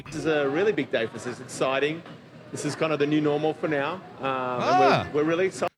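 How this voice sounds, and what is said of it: Australian accent. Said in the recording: “That's an Aussie. That's an Aussie business owner ... my accent”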